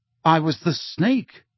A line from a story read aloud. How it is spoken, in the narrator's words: he said